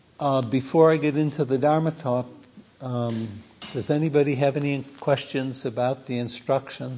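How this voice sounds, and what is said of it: Voice weakened by a cold. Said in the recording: “I've come down with a bit of a cold today, so I don't know how my voice is carrying”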